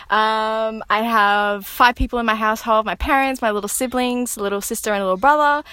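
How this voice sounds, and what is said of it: Australian accent. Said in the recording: “I'm an Aussie girl. Obviously, you can tell by my accent.”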